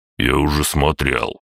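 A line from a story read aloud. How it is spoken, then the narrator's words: Gruff mutter. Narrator (Russian): буркнул Световид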